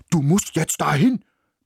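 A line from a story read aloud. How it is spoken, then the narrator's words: Barking. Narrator (German): bellte er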